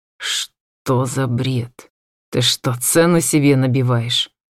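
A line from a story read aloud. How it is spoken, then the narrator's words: Muttered through clenched teeth. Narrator (Russian): Процедил он сквозь зубы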